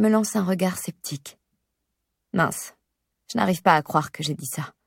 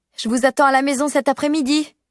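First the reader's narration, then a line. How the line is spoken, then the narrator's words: Shouting after them. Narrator (French): je crie après eux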